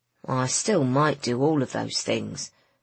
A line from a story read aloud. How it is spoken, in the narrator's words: said Griffin sullenly